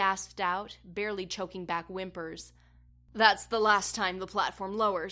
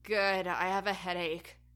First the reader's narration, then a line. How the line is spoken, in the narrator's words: Tristan moaned